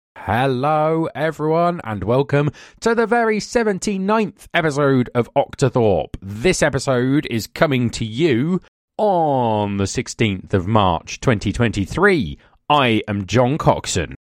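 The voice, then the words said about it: Polished TV presenter voice. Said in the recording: “are you doing your best presenter voice in a bid to be on Match of the Day or something?”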